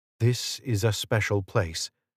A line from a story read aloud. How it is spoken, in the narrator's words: the seer whispered, low enough that only the screeds could hear